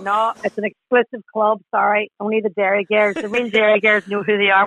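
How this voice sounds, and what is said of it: Derry Northern Irish accent. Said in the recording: “I'm very proud of my Derry accent. and it's getting stronger”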